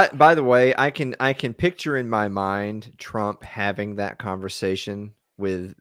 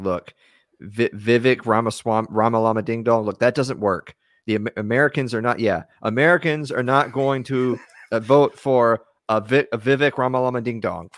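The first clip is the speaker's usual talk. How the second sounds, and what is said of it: Imitating Donald Trump. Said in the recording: “I don't do a good Trump impression”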